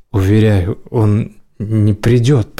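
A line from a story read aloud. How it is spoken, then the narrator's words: Stammering. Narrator (Russian): проговорила она, заикаясь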